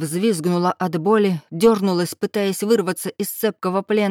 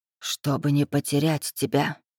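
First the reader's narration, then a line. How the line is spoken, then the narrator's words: Indistinct mumble. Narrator (Russian): невнятно пробормотала она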